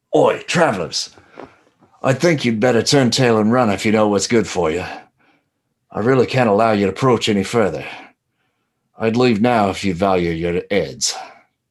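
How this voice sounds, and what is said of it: Deliberately bad Cockney accent. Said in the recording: “He's got a terrible Cockney accent.”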